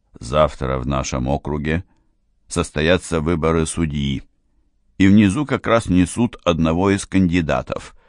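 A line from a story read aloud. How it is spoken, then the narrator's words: Perfectly calm. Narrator (Russian): сказал Деламарш, совершенно спокойно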